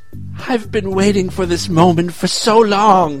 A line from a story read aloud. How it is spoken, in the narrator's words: he moaned